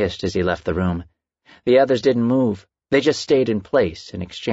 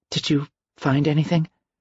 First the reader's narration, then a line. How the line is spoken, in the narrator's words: Carmen asked, nervously, quietly